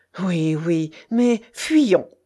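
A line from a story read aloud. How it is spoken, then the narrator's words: Exclaiming. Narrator (French): s'écria monsieur de Nossac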